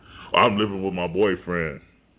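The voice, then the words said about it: Mock deep voice. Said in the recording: “I just said it with a deep voice, didn't I?”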